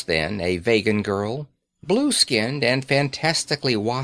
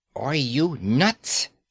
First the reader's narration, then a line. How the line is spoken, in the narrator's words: she said, kissing the words through her teeth